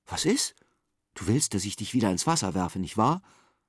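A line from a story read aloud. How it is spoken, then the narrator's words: Plain question. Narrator (German): fragt Simon ihn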